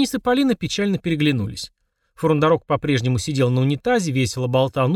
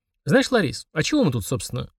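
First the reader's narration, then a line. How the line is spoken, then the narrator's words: Thoughtful. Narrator (Russian): задумчиво сказал друг дядя Витя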